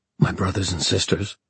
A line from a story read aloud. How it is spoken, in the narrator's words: Julian began, his voice tight